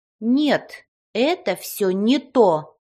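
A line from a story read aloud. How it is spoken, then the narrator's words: Stern. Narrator (Russian): строго произнесла фея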